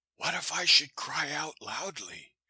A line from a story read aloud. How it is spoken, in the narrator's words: I queried in a whisper